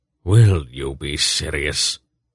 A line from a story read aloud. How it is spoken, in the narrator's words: Belgarath muttered